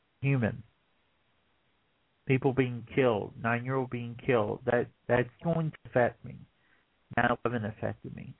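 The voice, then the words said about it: Emotional, choked-up speech. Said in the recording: “getting emotional”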